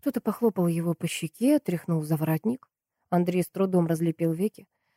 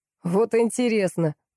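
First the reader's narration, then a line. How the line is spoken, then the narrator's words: Snorting man. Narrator (Russian): мужик фыркнул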